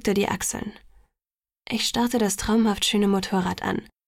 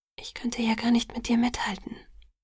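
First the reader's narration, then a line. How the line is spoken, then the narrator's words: Whispered. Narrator (German): flüsterte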